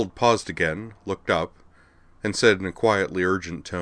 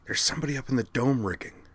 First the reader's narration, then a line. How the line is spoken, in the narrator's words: she hissed to Skuld